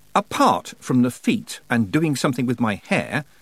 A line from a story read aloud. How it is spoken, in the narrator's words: said Tiffany sharply